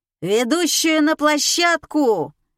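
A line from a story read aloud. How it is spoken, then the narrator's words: Yelling from a distance. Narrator (Russian): заорали из коридора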